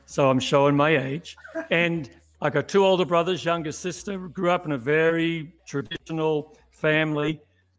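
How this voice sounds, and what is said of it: Australian accent. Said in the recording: “you may pick up from my accent, ... born in Melbourne, Australia”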